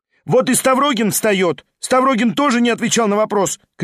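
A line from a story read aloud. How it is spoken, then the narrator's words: Female student shouting. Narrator (Russian): крикнула студентка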